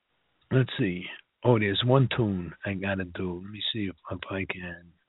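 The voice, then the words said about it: Unusually deep voice. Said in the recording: “Sorry for the coughing. Got a throat issue. You hear how deep my voice is? That's not me.”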